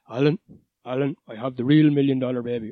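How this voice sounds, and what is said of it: Imitated deep male voice. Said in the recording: “the real deep voice”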